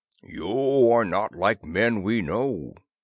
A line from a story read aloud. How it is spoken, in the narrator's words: the chief Skygar boomed to Disbro